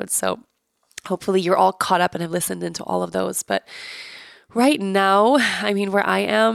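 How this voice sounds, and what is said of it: Sick, congested voice. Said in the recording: “I'm sick. Obviously, you guys can hear in my voice, it's very clear.”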